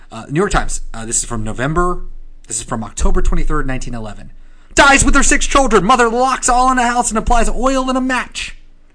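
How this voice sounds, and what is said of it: Old-timey newsreader voice. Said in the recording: “That's also definitely the newsy voice. You're being incredibly accurate ... accent”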